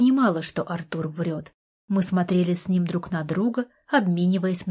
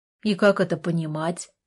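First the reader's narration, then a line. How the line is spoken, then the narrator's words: Cold question. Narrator (Russian): холодно спросил Артур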